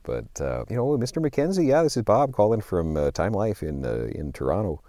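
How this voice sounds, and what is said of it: Deliberately lame put-on Canadian accent. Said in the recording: “I was doing a Canadian accent ... this is a really lame Canadian accent”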